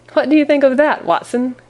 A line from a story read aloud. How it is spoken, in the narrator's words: cried Holmes in high glee, with satisfaction